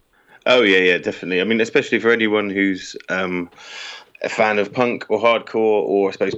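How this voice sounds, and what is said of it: British accent. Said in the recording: “your particular accent... our first guest from the United Kingdom”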